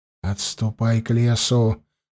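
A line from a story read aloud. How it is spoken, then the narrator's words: Quick whisper. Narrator (Russian): Быстро прошептал Андема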